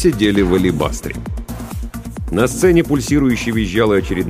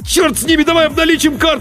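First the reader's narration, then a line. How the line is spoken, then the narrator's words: Yelling. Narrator (Russian): заорал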